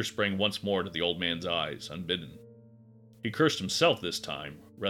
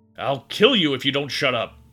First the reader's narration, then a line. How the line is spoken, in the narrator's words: Gary screamed and realized to his own amazement that he finally meant what he said